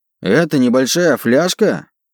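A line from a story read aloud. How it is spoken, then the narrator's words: Indignant question. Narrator (Russian): спросил я у тролля возмущенным голосом, когда ко мне вернулся дар речи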